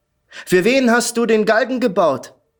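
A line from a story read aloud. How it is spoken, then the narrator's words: Sneering riddle. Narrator (German): Mit höhnischem Lächeln gab ein Rätsel auf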